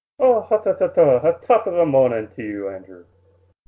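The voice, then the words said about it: Fake Irish accent. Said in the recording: “That was a great convincing accent ... how horrible my accent is ... competes with some of the fake Irish accents”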